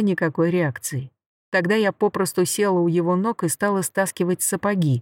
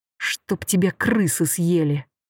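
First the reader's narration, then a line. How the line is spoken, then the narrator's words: Breathed out. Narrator (Russian): выдохнула я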